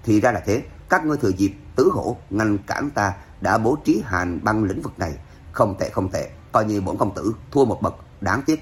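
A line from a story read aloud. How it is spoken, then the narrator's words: Cold, calm whisper. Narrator (Vietnamese): Hoàng Phủ Thanh Thiên cười lạnh, vẫn không thấy vẻ bối rối sợ hãi nào, chỉ là thì thào lên tiếng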